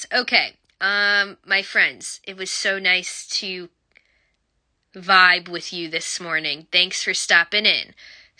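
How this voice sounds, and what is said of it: Voice sounds a little sick. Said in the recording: “Sorry for my voice. I'm a little under the weather.”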